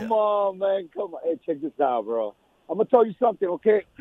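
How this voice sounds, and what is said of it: Hoarse, nearly lost voice. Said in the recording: “my voice is gone. It's still gone from Saturday”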